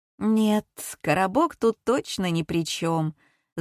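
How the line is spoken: Thoughtful. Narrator (Russian): задумчиво сказала Женя

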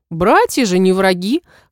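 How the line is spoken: Snort. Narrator (Russian): хмыкнул Фейр

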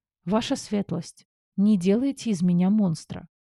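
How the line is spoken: Sighing sincere request. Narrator (Russian): Вздохнув, попросила от чистого сердца

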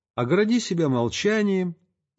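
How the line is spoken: Gentle tender speech. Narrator (Russian): Отец Серафим ласково сказал

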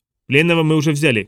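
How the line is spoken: Shouted. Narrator (Russian): крикнула Кортесу

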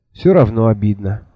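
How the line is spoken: Sigh. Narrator (Russian): вздохнула Миламари

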